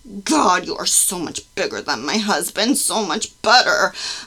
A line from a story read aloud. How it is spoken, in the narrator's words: I moaned